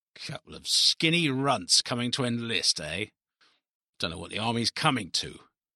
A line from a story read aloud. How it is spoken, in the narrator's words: he muttered